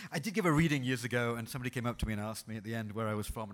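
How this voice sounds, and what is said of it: British English accent. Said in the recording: “I'm originally from Britain because it clears up the accent confusion... New Zealand, Australia, where's he from?”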